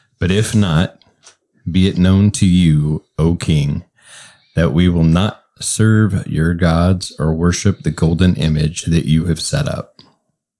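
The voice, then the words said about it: Deep nighttime radio voice. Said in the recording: “In your nighttime radio voice,”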